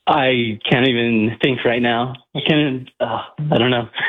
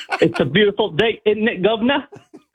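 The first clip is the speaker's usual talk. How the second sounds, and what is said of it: Put-on British accent. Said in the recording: “Can you do a British accent for us? ... Can you do a British accent?”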